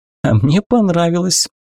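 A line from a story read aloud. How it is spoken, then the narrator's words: Laughing. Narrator (Russian): засмеялась попаданка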